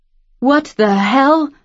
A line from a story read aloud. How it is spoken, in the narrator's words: Todd cried out